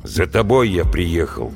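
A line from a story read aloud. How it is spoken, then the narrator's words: Gloomy tone. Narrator (Russian): мрачно сказал Вася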